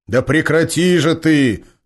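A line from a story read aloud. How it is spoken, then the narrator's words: Sudden bark into phone. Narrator (Russian): рявкнул вдруг в трубку Георгий, вмиг позабывший субординацию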